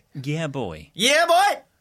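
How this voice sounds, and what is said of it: Shouting a catchphrase. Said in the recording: “keep shouting”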